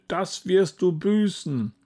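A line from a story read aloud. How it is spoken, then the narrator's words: Roar from huge mouth. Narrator (German): Er riss sein riesiges Maul auf und brüllte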